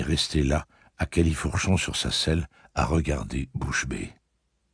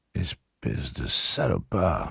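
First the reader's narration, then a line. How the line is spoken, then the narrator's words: Murmuring. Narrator (French): murmura-t-elle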